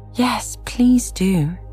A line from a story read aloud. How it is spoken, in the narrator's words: pleaded Alice